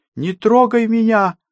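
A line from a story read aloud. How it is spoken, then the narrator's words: Woman screaming. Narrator (Russian): закричала женщина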